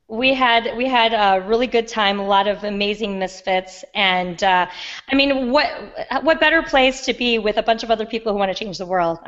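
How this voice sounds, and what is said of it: Raspy, hoarse voice. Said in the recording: “as you can tell, I have a raspy voice ... my raspy voice”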